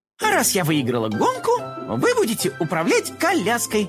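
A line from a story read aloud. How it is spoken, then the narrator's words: Laughing. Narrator (Russian): рассмеялась Карамелька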